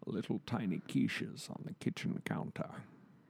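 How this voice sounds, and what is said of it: Imitates another person's voice. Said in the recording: “Can you give us a little Sean? ... does a Sean Connery impression ... the Sean Connery voice is probably the worst”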